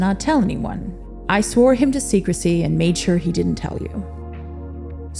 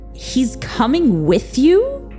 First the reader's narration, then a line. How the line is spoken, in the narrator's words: Victor shrieked, cutting them off